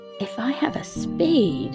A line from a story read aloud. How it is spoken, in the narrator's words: she whispered